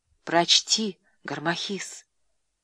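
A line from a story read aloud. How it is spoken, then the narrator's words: Whispered request. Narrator (Russian): все так же шепотом попросила Клеопатра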